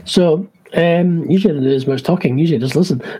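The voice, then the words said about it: Croaky, strained voice. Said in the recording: “I'm losing my voice is croaky as anything today.”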